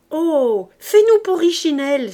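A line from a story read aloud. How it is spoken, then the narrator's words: Exclaimed. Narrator (French): s'écria Gavroche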